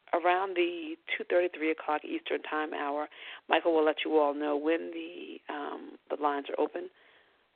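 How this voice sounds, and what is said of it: Congested, strained voice. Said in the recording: “Please excuse my voice. I'm having issues with allergies and sinuses right now.”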